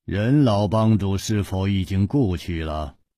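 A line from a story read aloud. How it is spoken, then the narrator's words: Calm, after long silence. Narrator (Chinese): 天风大师默然半晌，淡淡地说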